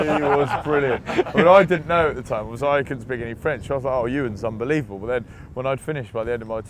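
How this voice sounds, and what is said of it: Usual voice. Nothing is said of it.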